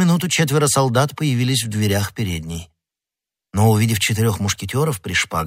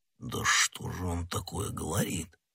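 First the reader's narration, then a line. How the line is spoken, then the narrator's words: Muttered. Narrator (Russian): пробормотал Портос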